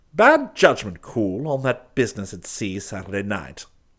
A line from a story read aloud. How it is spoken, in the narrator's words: he grumbled